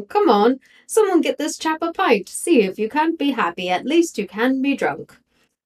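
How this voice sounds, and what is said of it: Deliberately bad put-on accent. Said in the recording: “in a bad accent... I intentionally did it.”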